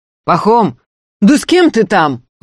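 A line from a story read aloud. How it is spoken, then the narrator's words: Angry calling out. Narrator (Russian): уже сердито окликнули его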